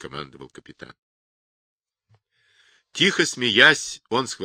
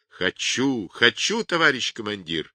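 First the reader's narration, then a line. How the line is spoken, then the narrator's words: Ringing, delighted shout. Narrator (Russian): звенящим от восторга голосом закричал Павлик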